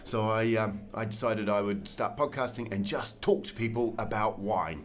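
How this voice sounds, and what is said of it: New Zealand accent. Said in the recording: “where are you from originally with that accent? ... I'm a Kiwi from New Zealand”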